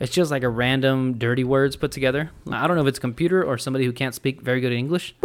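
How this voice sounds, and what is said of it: Usual voice. Nothing is said of it.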